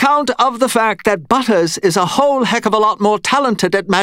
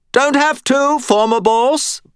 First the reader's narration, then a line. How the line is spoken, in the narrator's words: Bob said cheerfully